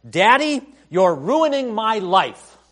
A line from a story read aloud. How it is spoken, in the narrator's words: yelled at him